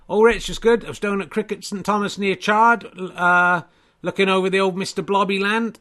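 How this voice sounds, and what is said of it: Somerset English accent. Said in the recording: “Your Somerset accent's very good. Well, it's because I'm from Somerset”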